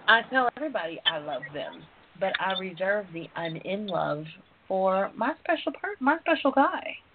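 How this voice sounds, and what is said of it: Southern twang accent. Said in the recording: “I'm Southern, down to my twang.”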